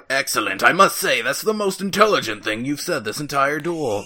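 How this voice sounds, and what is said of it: Imitates a cartoon character's voice. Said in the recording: “That's not a very good Merrick impression”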